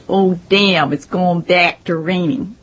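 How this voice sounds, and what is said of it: Nasal Midwestern accent imitation. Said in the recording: “Midwesterners nasalize their vowels. They say things like”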